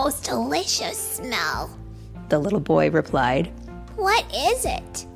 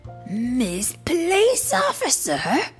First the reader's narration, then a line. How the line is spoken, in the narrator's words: Amu exclaimed